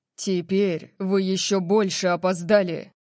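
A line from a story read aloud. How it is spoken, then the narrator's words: Angry bark. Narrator (Russian): Рявкнул Орион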